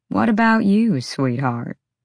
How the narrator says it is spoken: Flynn purred at the dragon, like the Fey male literally couldn't help himself

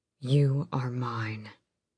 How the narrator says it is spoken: Rowan breathed

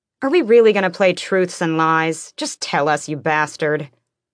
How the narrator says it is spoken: Fenris snorted

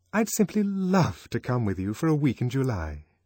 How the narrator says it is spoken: aloud, and more warmly than ever

